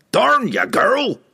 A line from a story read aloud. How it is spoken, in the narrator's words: the dwarf roared